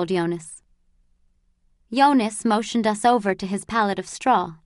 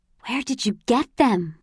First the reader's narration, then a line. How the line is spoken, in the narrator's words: I whispered